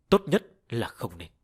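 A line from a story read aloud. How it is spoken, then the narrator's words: Cold, convulsing voice. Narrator (Vietnamese): Thân thể Diêm Vương co giật kịch liệt, lạnh lùng nói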